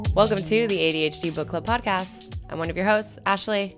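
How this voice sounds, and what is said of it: Scratchy, deep voice. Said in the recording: “does my voice sound kind of scratchy today? I feel like I sound like very deep. ... Yeah, now that you pointed out a little bit, maybe. ... I did a lot of karaokeing over the weekend”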